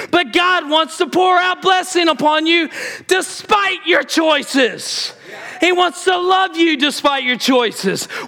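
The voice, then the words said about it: Screaming. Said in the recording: “Why am I screaming? Because I can't stop.”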